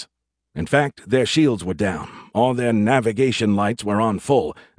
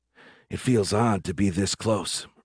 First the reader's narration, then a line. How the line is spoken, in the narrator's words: Reed said under her breath